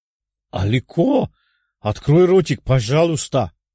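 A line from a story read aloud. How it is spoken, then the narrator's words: Exclaiming. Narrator (Russian): воскликнул Саба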